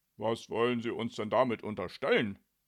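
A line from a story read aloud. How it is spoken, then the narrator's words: Angry growl. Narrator (German): knurrte Jannik ärgerlich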